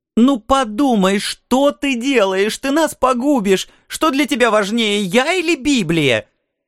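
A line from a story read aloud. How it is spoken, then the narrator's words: Hysterical shouting. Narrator (Russian): Она уже опять истерически кричала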